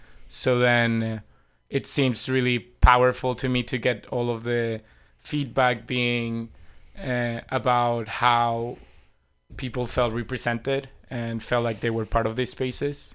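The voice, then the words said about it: Venezuelan Spanish accent. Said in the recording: “I love your accent. Where is that from? ... I'm originally from Venezuela.”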